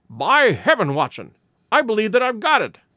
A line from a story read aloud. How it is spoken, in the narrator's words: he cried